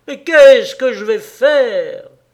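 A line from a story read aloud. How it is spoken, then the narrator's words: Distraught, frantic shout. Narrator (French): Une telle détresse le souleva qu'il cria plus haut égaré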